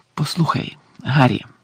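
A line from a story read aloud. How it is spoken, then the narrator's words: Very quiet. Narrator (Ukrainian): сказав він, усе ще дуже тихо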